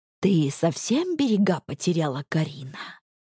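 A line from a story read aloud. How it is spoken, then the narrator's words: Quiet near-whisper. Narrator (Russian): Тихо, почти шепотом говорю я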